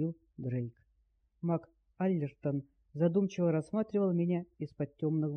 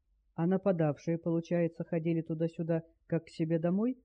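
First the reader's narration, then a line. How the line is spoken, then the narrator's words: Plain. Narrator (Russian): спросил Дэл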